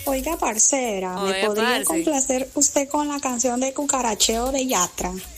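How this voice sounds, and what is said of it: Put-on Colombian accent. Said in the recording (Spanish): “notas de voz con acento colombiano ... Oiga, parcera, qué bonito le salió el acento”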